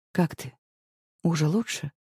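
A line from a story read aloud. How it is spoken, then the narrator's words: Quiet question. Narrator (Russian): спрашивает он тихо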